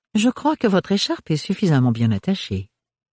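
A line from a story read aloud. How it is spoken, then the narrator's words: Sudden friendly tone. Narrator (French): déclara soudain le baron Melchior d'un ton aimable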